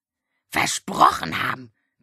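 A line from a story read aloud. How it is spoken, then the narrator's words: Croaking raven. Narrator (German): krächzte der Rabe Abraxas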